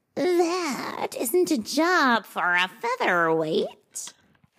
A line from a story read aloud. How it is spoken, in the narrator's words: he purred